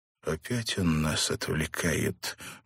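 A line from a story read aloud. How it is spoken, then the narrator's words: Muffled and hoarse. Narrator (Russian): глухо и хрипло произнес Бен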